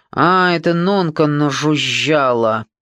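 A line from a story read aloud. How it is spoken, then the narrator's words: Angry muttering. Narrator (Russian): Зло пробормотал Олег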